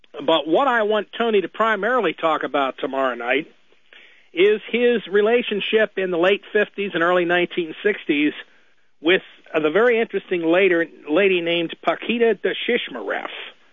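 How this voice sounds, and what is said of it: Rough, hoarse voice. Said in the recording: “you hear my voice is a little rough here”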